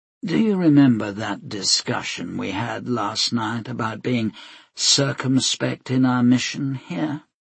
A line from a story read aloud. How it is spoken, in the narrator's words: he asked quietly